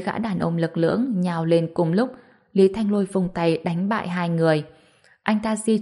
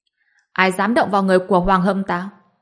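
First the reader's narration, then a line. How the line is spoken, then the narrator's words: Angry distant shout. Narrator (Vietnamese): Một tiếng quát giận dữ từ phía cửa ra vào vọng lại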